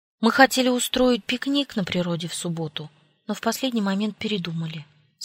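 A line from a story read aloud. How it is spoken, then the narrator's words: Plain. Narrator (Russian): сказала Анжела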